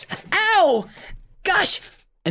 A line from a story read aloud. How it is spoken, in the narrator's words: Buzzy falls to the ground and yelps